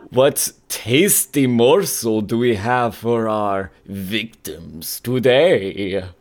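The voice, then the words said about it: Dracula-style accent. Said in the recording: “I'm dropping the Dracula accent.”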